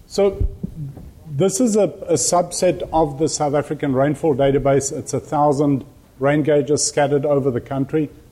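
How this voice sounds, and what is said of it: South African accent. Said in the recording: “I've got an accent. That's where my accent is from.”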